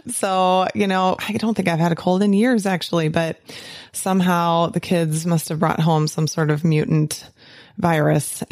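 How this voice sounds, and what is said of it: Hoarse, raspy voice. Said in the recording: “my voice is a little hoarse. It's a little bit raspy”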